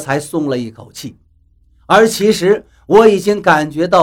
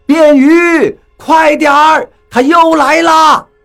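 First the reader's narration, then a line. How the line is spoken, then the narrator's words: Group shouting loudly. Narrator (Chinese): 雷森他们就在下面大声喊叫起来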